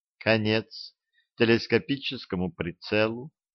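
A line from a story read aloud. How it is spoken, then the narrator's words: Sighing. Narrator (Russian): вздохнула Банни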